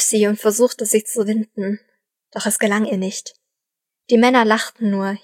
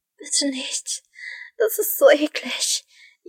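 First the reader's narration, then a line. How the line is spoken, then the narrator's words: Whining. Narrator (German): jammerte sie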